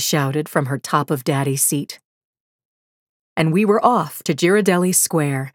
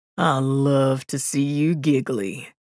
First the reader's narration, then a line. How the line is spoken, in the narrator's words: teased in his southern accent